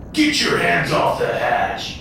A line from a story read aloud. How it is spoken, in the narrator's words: Papa Joey roared